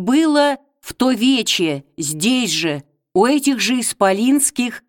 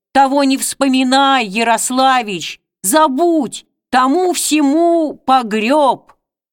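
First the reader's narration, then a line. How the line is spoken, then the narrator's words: Indignant, ashamed crowd shouting. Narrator (Russian): Бури негодующих и пристыженных голосов крикнули в ответ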